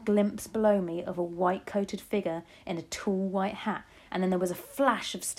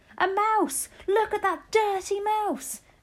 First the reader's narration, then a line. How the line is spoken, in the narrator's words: a man's voice yelling